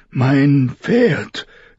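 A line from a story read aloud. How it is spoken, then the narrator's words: Panting gasp. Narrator (German): keuchte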